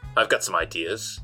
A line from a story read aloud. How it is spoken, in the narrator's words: I said